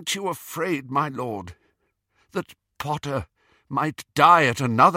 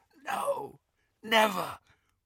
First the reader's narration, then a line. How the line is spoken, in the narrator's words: whispered Malfoy